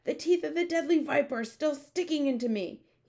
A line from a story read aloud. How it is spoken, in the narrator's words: he yelled